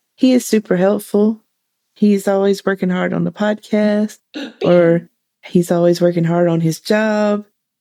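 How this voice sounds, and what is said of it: Honeyed Southern American accent. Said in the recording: “what they make the Southern lawyer sound like is what your voice is like... good storyteller voice... A little bit of McConaughey... like a honeyed Southern accent”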